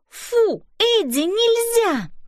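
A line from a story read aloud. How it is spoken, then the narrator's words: Exclaiming. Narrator (Russian): воскликнула Мэйзи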